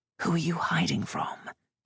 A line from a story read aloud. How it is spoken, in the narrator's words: whispered